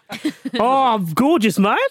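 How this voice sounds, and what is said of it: Imitated accent, imitates another person's voice. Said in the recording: “Should have got Vish to do the accent.”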